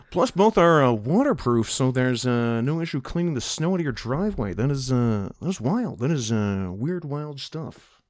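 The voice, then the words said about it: Imitates another person's voice. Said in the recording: “now do Johnny Carson”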